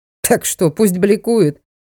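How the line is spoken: Snorting remark. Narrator (Russian): фыркнул из-за камеры Ямогучий

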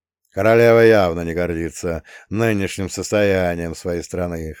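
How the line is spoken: Short chuckle. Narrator (Russian): хохотнул Бовин

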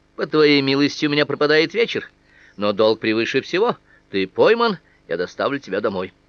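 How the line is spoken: Laughing, then speaking. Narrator (Russian): Она расхохоталась, сказала

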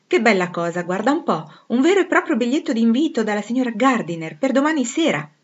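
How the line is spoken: Youthful delighted exclamation. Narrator (Italian): esclamò, con giovanile compiacimento

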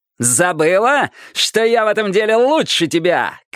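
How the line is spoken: Shouted. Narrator (Russian): крикнул

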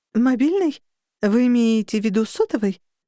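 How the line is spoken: Plain. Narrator (Russian): спросила она

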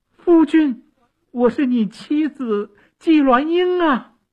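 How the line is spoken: Loud call. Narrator (Chinese): 纪鸾英 大声地叫

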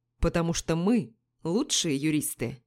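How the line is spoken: Calm, smiling. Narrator (Russian): спокойно улыбнулся Мишель

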